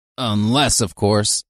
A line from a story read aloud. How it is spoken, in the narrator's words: he grunted